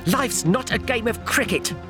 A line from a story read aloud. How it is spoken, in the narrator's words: Magerson spat